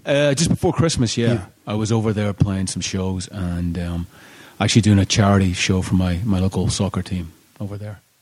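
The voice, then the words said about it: Northern Irish Belfast accent. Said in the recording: “the accent, you are not from around these parts ... I originally come from Belfast in Northern Ireland”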